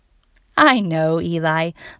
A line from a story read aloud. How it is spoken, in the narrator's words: laughed Mom